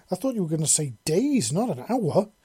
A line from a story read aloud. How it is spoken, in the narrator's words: the woman exclaimed